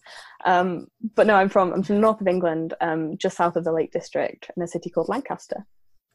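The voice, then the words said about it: Northern English accent. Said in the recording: “I'm from the north of England. So I don't sound like the Queen. So everyone always assumes I'm Australian ... northern accents sound like Australian accents”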